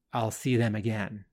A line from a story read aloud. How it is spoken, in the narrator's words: Xandar whispers